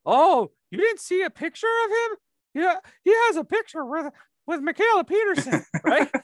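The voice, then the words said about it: Imitates another person's voice. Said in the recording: “that's the best imitation you do. ... if everybody has one impression that they do of a random person”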